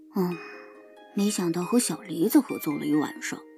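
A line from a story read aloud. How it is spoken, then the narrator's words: Regretful murmur to himself. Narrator (Chinese): 高修有些后悔的喃喃自语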